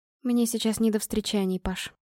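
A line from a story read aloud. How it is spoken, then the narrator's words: Quiet reply. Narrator (Russian): ответила я тихо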